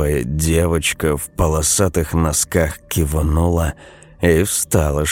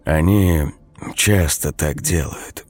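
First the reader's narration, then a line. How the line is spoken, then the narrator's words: Soft speech. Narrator (Russian): мягко сказал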